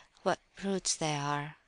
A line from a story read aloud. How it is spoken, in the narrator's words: he whispered